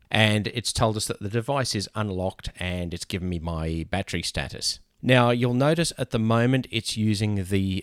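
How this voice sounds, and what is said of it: Australian English accent. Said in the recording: “I'm in Australia, as you probably picked by the accent.”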